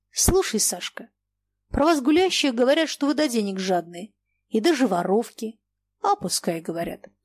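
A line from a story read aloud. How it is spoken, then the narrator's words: Calm. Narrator (Russian): спокойно сказала Саша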